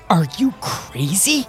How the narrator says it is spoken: He snarled through his teeth

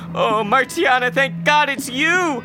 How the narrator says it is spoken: cried back

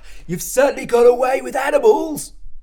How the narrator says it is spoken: said Alan, still panting

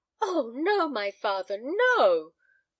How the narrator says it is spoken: cried Helen Clive imploringly

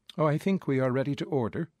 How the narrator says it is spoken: said the husband

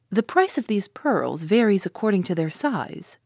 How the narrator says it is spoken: asked Conseil

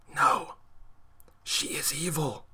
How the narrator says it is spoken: The child whispered

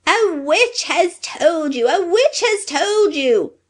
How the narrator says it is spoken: shrieked the little man

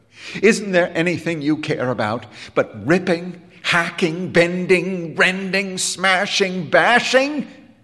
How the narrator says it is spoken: He cried

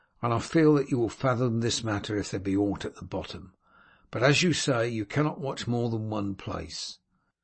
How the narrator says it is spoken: Wulf said warmly

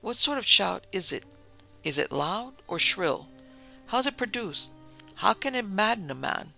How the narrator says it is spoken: Richard asked, gasping

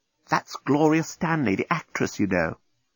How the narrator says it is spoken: the desk bot whisper to one of the door bots

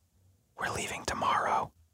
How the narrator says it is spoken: Rita leans in very close to me and whispers

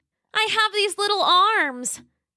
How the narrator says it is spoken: Roxy cried

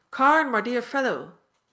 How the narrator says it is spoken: shouted

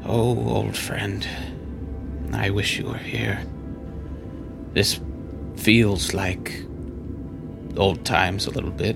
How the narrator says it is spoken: under his breath, is kind of talking to himself, and he just says

